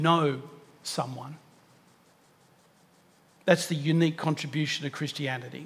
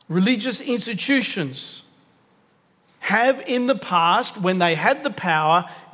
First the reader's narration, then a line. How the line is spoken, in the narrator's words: yelled the most